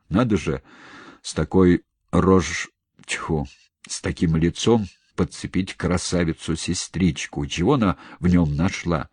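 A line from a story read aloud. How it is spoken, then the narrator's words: Grumbling. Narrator (Russian): ворчал полковник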